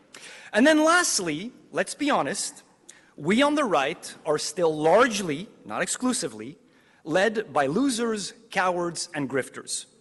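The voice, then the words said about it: Speaker with a noticeable accent. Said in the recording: “You notice he's got an accent”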